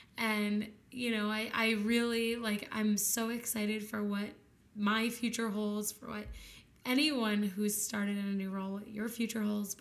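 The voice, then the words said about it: Tired, worn-out voice. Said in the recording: “you can probably hear it in my voice ... I am so tired.”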